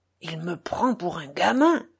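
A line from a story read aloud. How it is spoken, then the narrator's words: Muttering through gritted teeth. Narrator (French): murmura Mitya en grinçant des dents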